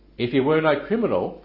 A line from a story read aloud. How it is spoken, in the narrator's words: they answered him